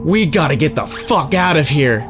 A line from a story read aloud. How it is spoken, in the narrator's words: half screamed and cried